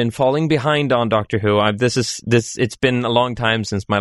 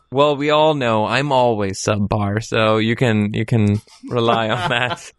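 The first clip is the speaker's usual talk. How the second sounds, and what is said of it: Golf announcer voice. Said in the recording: “That's just what we want from the golf announcer voice.”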